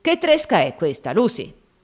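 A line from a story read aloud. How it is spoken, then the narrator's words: Brutal, harsh voice. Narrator (Italian): Pareva che un odio particolare lo muovesse contro quella donna e, le disse con voce brutale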